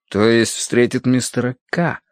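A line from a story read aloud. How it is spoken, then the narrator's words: Drawl. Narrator (Russian): протянул я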